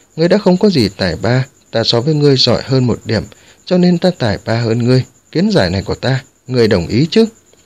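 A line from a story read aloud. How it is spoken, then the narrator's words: Smiling. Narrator (Vietnamese): Quân Mặc Tà mỉm cười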